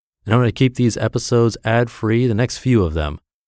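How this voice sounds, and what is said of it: Soothing speaking voice. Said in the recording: “The most common description is that my voice is soothing.”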